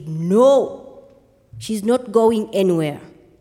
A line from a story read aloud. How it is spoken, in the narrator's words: my mother answered in a very strong voice and said